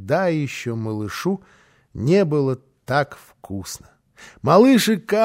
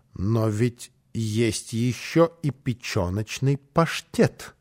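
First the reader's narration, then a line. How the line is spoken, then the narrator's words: Pointedly calm. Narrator (Russian): сказала она подчеркнуто спокойным тоном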